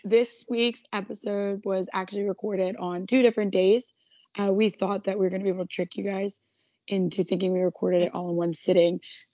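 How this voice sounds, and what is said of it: Hoarse voice, losing it. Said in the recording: “can you guys tell that I'm losing my voice? ... sounds like a different human being.”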